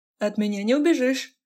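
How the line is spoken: Laughing. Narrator (Russian): Саша засмеялся

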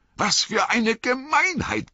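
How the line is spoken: Roared. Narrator (German): brüllte Frodo

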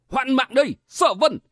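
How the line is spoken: Roar. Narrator (Vietnamese): Kim Giáp Sĩ, tiếng gầm của hắn

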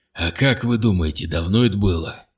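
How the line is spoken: Hoarse, dejected. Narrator (Russian): Хриплый голос Богута звучал угнетенно

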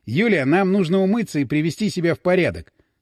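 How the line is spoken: Stern. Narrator (Russian): строго сказал Васин

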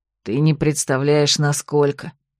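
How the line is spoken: Sigh. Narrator (Russian): вздохнул брат

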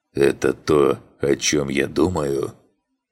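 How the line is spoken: Wheezing. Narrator (Russian): прохрипел

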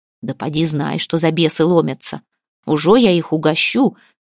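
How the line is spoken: Threatening promise. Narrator (Russian): грозно пообещал он

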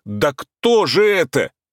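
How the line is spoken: Startled full-throated yell. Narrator (Russian): Я, как обожженный, заорал во все горло

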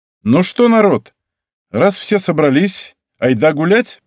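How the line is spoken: Loud. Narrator (Russian): произнес я громко

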